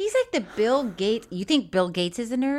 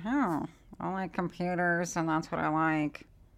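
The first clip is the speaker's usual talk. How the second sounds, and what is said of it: Poor imitation of another person's voice. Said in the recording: “who is this terrible impression of?”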